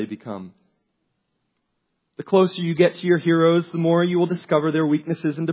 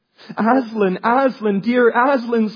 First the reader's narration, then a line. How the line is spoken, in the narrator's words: sobbed Lucy